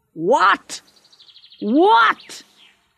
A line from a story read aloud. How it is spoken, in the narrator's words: he shouted